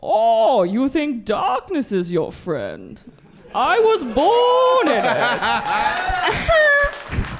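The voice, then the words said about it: Bane impression. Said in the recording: “I guess Bane is an impression... That's your go-to impression, Bane.”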